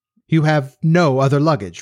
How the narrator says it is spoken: repeated Laidlaw

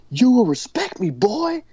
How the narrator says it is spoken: He just yells it at him

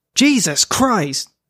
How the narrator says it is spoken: Officer Abram Hillman shouted, seeing the scene for the first time

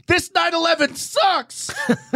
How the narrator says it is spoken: screaming

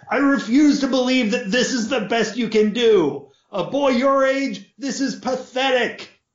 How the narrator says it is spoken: his bellowing father

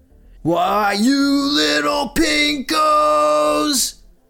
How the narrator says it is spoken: Sergeant Leakey yells

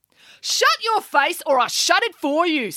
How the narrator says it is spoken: said April angrily

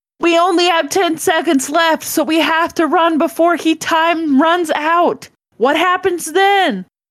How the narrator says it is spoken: John yelled

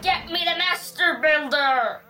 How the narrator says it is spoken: He roared

